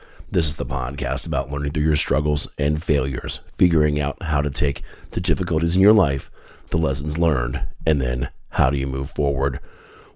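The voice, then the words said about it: Slightly raspy, hoarse voice. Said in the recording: “my voice sounds a little bit off, it is ... I'm dealing with uh, with a cough again this week ... maybe even a little bit raspier than normal”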